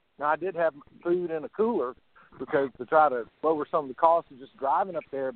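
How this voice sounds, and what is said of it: American Southern accent. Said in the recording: “my southern accent”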